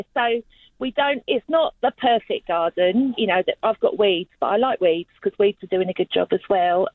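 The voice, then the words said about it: London English accent. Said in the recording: “as you probably get from my accent, I'm originally from London”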